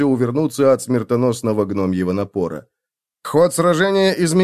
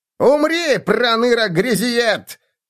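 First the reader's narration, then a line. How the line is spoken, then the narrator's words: Shouted. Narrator (Russian): крикнул полурослик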